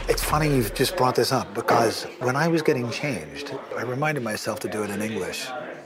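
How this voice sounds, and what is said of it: London British English accent. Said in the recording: “British English ... In my London British accent”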